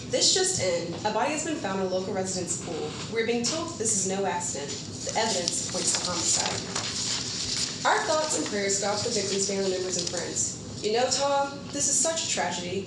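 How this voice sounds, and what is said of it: News reporter voice. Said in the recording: “Oh my god, that's perfect. You sound like a news reporter.”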